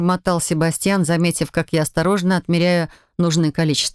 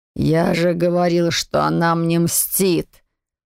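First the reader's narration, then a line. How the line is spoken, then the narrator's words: Wistful grumbling. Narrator (Russian): проворчал Лоран, с тоской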